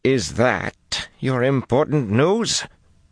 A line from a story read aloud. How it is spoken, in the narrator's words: Nile demanded irritably